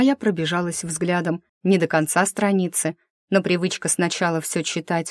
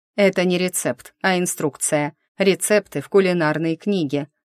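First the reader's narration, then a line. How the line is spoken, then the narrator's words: Snorted. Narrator (Russian): фыркнул Старвик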